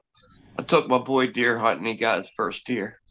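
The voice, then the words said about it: Choked up, emotional voice. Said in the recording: “This is good, but I can get choked up.”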